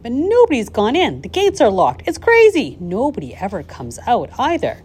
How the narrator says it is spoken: the people shouted

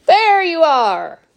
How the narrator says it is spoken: cried Mr

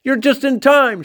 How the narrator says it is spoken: shouted Grandpa Joe

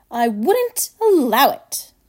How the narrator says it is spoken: cried Mr

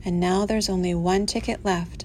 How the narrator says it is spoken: said Grandpa George

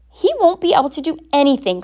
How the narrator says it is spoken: cried Mrs

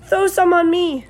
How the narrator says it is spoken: cried Avery

